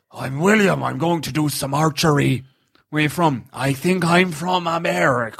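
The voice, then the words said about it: Impression of Matt Damon's film accent. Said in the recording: “on Matt Damon in this film. ... What's the accent?”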